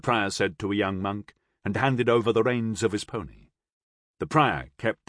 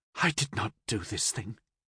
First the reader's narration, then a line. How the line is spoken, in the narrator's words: I mumbled